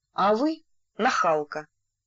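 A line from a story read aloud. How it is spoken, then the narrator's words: Calm reply. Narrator (Russian): спокойно ответил Стас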